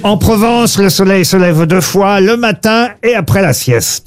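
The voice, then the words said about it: Slight put-on southern French accent. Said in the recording (French): “Vous avez utilisé un petit accent. ... Bah oui, puisque ça parle du midi en Provence”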